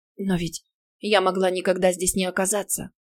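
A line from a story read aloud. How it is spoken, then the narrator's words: Whisper. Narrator (Russian): прошептала я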